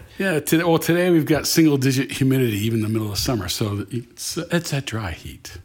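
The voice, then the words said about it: Smooth radio-announcer voice. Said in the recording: “you have the radio voice.”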